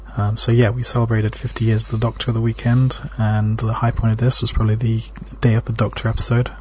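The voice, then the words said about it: English accent. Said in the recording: “an English perspective on Doctor Who ... Since Doctor Who is a very British thing, I thought you should have an opinion with a suitable accent.”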